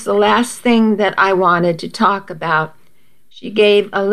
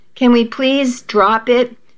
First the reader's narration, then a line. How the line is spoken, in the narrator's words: I begged